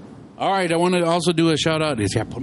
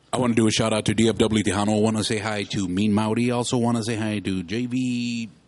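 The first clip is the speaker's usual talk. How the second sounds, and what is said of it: DJ-style announcer voice. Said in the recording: “put my fucking DJ voice on ... Oh, hey, that sounds great.”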